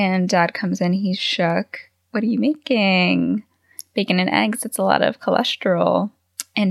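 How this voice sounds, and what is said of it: Usual voice. Nothing is said of it.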